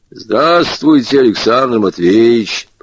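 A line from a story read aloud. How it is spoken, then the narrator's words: Booming bass voice. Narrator (Russian): прокатал метеоролог действительно басом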